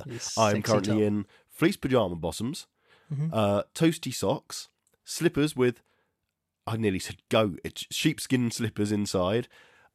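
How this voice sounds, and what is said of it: Raspy, husky sick voice. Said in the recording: “I'm dying of the plague. ... As you can hear by my super sexy voice, I sound a bit like Bonnie Tyler.”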